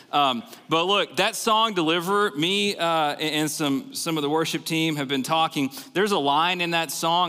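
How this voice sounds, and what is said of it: Central Texas accent. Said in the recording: “I sound a little weird ... this weird accent coming out of my mouth ... uprooted from Central Texas to Iowa”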